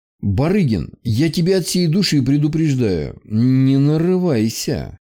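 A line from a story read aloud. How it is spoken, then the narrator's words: Through gritted teeth. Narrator (Russian): Сквозь зубы сказал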